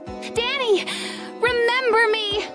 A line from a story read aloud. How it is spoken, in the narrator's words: Hannah cried